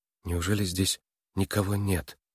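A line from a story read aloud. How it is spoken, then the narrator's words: Quiet question. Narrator (Russian): тихо спросила Нойс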